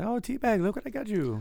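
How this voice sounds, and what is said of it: Poor put-on Asian accent. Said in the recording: “my Asian impression is not very good”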